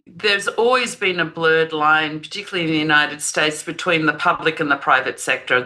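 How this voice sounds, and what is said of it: Non-American accent, Dutch-Australian background. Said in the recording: “as you can probably tell from the accent, I'm not from these parts. So I'm both a Dutch citizen, but I grew up in Australia”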